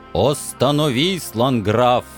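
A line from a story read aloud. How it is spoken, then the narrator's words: Thundering voice. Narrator (Russian): еще раз прогремел знакомый голос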